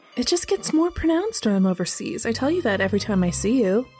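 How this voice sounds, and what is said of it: American accent. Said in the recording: “still using that rubbish accent? ... suddenly you come home talking like a Yank.”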